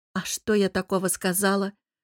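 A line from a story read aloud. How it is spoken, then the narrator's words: Defensive grumbling. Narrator (Russian): Начала оправдываться и проворчала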